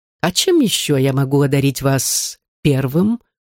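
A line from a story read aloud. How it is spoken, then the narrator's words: Soft, ingratiating question. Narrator (Russian): тихо и вкрадчиво спросил Лорен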